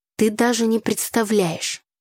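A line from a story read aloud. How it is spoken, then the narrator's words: Displeased voice. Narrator (Russian): недовольным голосом начал Игорь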